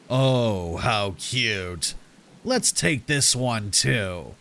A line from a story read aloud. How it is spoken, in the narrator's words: said in a raspy voice